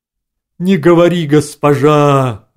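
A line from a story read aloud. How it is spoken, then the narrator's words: Braying roar. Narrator (Russian): ослом взревел Грегори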